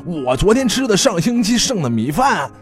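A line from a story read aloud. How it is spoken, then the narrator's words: Furious roar. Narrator (Chinese): 大宽怒吼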